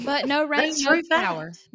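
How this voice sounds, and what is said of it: Put-on country accent. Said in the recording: “I don't know where that country accent just came from”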